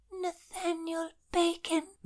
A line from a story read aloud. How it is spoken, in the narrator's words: Winifred breathed